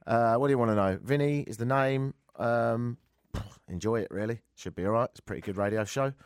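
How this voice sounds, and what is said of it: Voice lower than usual, slightly American. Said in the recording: “Do I sound different? A little bit. ... It was so low. ... I'm slightly American when I have a cold ... this is my normal one, but a few octaves lower than normal.”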